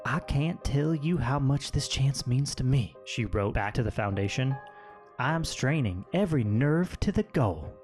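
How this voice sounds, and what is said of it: Put-on Southern US accent. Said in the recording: “I gave her a southern accent.”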